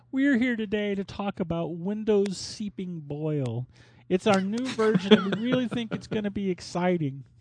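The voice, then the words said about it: Imitates another person's voice. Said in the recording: “my passable Bill Gates impression”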